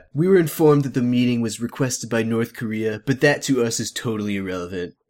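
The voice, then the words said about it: Donald Trump impression. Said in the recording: “I don't do a good Trump voice ... I love your Trump voice ... It's like almost as bad as the Simpsons Trump voice ... It's not that bad ... It's good to me.”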